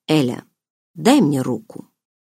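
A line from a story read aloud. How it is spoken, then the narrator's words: Soft. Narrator (Russian): мягко произнес Барс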